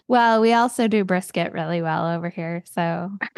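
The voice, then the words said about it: Put-on Texan accent. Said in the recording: “she's from Texas. All right. I don't know where that accent came from.”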